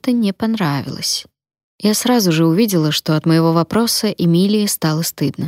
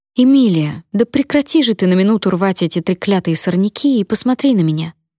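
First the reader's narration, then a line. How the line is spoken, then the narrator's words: Gentle but firm. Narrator (Russian): Ласково, но с твердостью в голосе сказала я, как мать, пытающаяся выведать что-то у надувшегося ребенка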